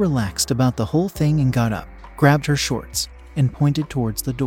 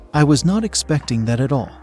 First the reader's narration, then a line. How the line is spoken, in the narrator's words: I said